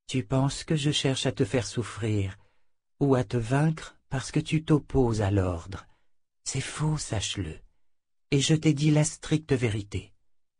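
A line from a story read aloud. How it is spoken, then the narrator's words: Very gentle voice. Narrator (French): dit Nietzsche, d'une voix si douce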